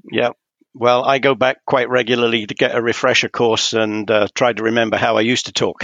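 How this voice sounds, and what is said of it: British English accent. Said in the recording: “a fellow Brit ... I don't really get to hear the accent very much anymore”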